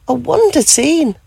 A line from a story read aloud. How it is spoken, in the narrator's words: gasped with joy